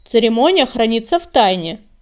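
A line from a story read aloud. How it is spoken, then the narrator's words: Grumbled. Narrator (Russian): проворчала Щербатая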